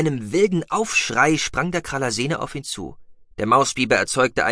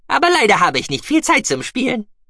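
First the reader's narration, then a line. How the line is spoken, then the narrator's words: Cheerful squeak. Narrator (German): piepste Guki fröhlich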